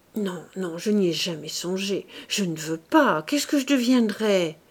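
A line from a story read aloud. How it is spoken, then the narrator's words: Brusque. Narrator (French): Claude ajouta d'une voix brusque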